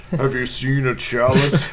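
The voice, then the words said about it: Deep put-on character voice. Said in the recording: “Speaks in a deep voice.”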